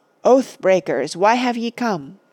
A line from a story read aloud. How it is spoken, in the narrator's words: he cried in a great voice